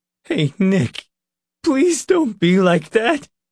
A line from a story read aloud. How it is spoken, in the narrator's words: Leroy begged, his voice rising and breaking